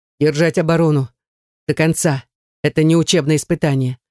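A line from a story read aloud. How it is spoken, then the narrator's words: Dry command. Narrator (Russian): Сухо приказывает нам Наяр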